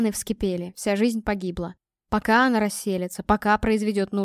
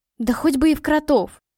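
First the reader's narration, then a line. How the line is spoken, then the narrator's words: Exclaimed. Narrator (Russian): воскликнула Катя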